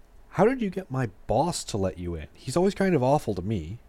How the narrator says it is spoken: James asked

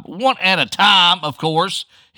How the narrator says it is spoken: he bellowed

